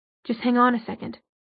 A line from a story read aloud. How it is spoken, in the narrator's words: Alex said grimly